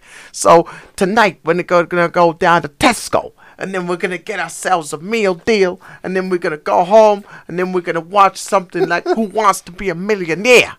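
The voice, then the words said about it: Strong New York accent impression. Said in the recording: “he's got such a strong accent ... I love his New York accent ... His iconic accent”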